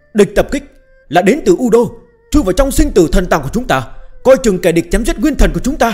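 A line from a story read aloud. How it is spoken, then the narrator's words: Furious alarmed shout. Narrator (Vietnamese): gã ta ... giận dữ hét lên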